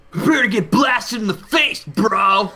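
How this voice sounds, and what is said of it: Exaggerated bro voice. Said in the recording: “I'm gonna talk like this ... Talking like a bro.”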